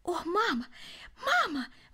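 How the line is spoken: Exclaimed. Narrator (Russian): воскликнул он

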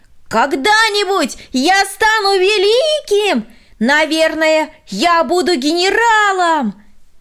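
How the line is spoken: Shouted from afar. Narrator (Russian): Еще издали он прокричал ей

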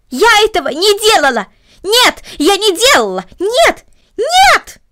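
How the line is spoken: Loud scream. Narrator (Russian): громко закричала Корнели

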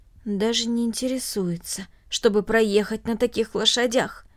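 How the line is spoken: Low undertone. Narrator (Russian): он добавил вполголоса

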